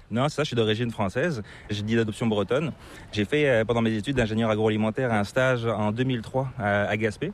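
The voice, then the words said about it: Slight non-Québécois French accent. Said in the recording (French): “tu as une petite pointe d'accent qui est assez difficile de deviner... c'est pas l'accent québécois”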